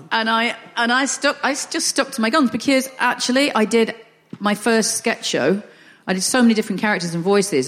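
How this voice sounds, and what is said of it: Northern English accent. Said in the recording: “I'm quite happy with a Northern accent ... if you sound Northern.”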